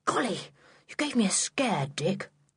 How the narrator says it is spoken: whispered

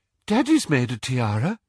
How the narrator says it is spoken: piped up Luna

